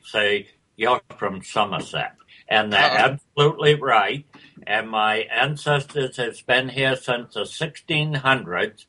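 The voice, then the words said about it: Maine accent with English tinge. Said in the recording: “You can hear a little bit of the Maine accent in there, and the English as well.”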